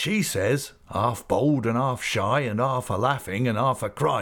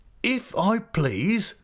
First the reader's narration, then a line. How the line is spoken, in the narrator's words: cried Mr